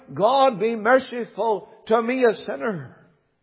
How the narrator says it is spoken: the publican of old who cried out

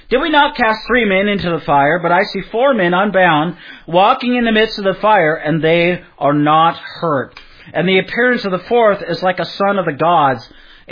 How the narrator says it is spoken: Nebuchadnezzar exclaimed to his aides

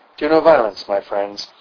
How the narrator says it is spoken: said calmly

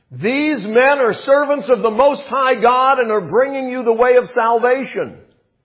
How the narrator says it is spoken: shouting at the top of her voice

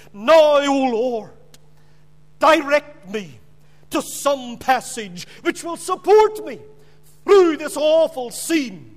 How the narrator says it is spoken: the bishop cried

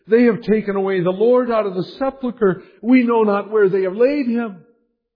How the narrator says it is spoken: she exclaims

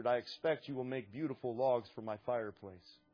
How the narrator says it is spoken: The farmer calmly answered

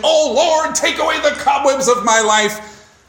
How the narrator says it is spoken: a young man who had heard this long enough shouted

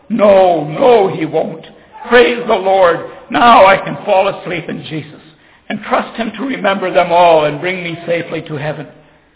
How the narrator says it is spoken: A smile came over the face of the dying believer as he exclaimed joyfully

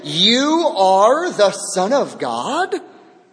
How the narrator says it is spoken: The demons shouted

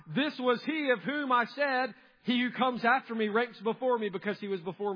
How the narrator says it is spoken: John bore witness about Him and cried out

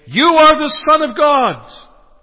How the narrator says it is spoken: they cried out saying

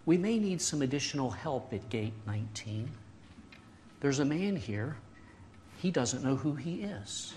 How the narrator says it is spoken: the gate attendant calmly, quietly, she said

